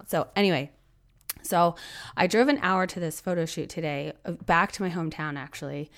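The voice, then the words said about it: Hoarse, strained voice from cough. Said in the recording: “I am fighting a cough and losing my voice. So I probably don't sound like myself”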